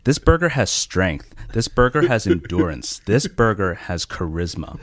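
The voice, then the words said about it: Dramatic TV commercial voice. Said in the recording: “Why do you sound like a tampon ad?”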